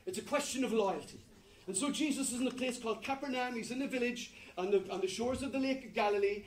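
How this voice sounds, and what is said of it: Strong accent. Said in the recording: “apparently my accent is very strong”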